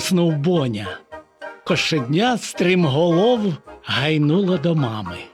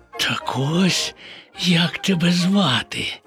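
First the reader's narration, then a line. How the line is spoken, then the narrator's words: Whisper. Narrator (Ukrainian): прошепотів Боня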